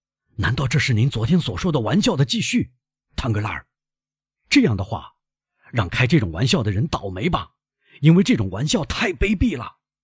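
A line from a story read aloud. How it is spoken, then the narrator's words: Hoarse voice. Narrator (Chinese): 他用嘶哑的声音说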